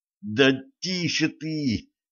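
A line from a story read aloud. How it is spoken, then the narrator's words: Pained groan. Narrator (Russian): простонал Шарль, ребра которого затрещали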